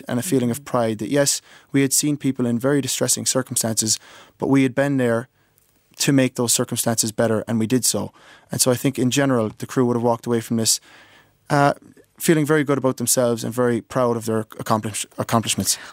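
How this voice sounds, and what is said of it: American accent. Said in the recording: “I'm hearing a trace of an American accent there ... you're hearing more than a trace”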